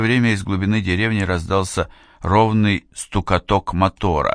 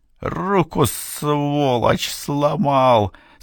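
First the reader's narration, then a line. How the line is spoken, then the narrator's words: Groaning through gritted teeth. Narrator (Russian): скрипя зубами, стонал Гордон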